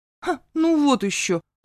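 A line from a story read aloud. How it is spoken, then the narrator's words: Snapping. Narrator (Russian): огрызнулась я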